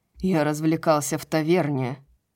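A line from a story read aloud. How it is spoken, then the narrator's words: Growled. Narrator (Russian): прорычал Полукс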